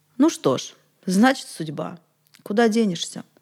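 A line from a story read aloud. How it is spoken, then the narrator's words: Impassive voice. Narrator (Russian): Все тем же бесстрастным голосом Петр сказал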